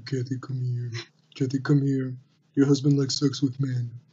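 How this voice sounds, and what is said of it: Soothing, coaxing voice. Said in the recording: “in a soothing voice”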